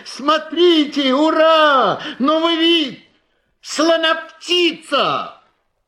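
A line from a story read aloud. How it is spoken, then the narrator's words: Jubilant crowd shouting. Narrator (Russian): люди вокруг ликовали, смеялись, кричали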